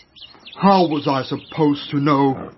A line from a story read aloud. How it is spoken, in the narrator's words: he roared angrily